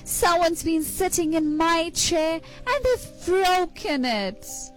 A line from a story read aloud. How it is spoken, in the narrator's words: Baby Bear looked at his little chair and exclaimed